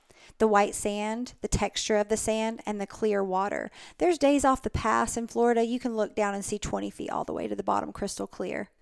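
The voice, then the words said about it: Southern US accent. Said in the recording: “your southern accent”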